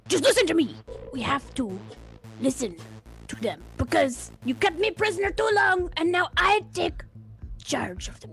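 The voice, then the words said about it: Character voice, French-Canadian-like accent. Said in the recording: “Why is the Ogron French-Canadian? ... You get a weird mix of something.”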